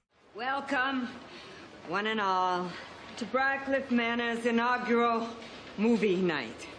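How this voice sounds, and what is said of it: Drunken speech with Boston accent. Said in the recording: “she is just talking like this, and she's drunk and she's got that Boston accent. It's so good.”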